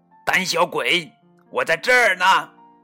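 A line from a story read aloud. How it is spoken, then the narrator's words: Loud distracting shout. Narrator (Chinese): 卡门为了分散克鲁马努鸡的注意力，大喊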